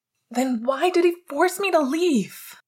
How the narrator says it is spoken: Sirius shouted angrily, his voice muffled within the thick fibers of Pete's jumper

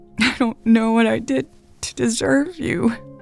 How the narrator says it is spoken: Elle sobbed

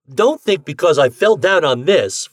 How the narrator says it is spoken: Ford began hotly

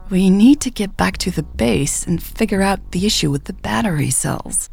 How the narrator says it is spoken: Michelle said hesitantly

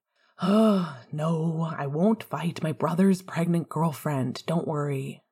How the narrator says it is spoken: sighed, frowning again

